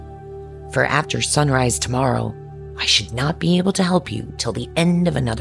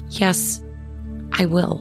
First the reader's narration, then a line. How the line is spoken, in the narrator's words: said the little princess in a trembling voice as she thought of the prince and the immortal soul